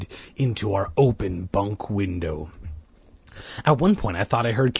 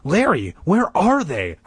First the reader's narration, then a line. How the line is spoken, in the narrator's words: I cried out breathlessly